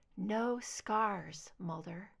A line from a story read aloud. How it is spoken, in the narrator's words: she murmured